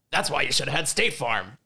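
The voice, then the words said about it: Poor imitation of another person's voice. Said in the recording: “my J.K. Simmons impression ... That was really bad. That wasn't even close. ... that was a bad impression.”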